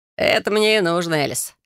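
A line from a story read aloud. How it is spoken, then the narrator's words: Mysterious snorting voice. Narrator (Russian): хмыкнул таинственный Грегор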